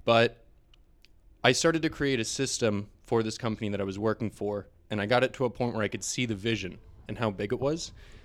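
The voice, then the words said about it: Emotional, choked-up voice. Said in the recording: “I'm sorry, I always get a little bit emotional when I talk about this ... I apologize. I always get a little emotional about this.”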